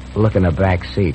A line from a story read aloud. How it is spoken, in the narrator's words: the other driver managed to say feebly